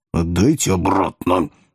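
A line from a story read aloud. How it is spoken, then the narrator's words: Angry hiss. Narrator (Russian): в злобе зашипела Зазелла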